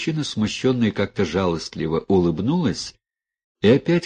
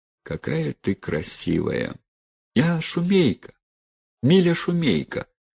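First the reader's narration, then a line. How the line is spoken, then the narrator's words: Relieved sigh. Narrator (Russian): сказала девчина, облегченно вздохнув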